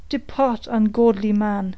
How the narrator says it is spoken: cried the veteran

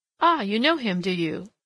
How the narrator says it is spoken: laughed the village innkeeper

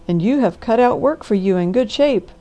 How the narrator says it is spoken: cried the doctor

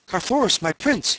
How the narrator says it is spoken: he cried

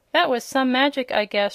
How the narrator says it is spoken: she exclaimed

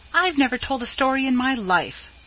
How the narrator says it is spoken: said Pin hotly

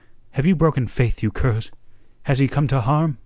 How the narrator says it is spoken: he cried

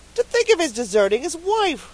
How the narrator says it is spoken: she said indignantly

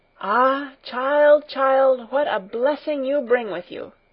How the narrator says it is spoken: the old woman exclaimed

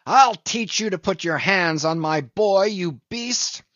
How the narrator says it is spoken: roared the saloon-keeper

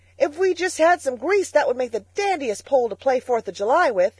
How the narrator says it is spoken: he shouted

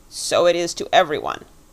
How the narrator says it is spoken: said the creature sharply

